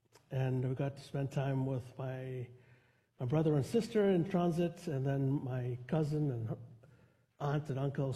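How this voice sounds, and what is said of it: Strained voice, nearly losing it. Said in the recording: “I'm at the verge of losing my voice again”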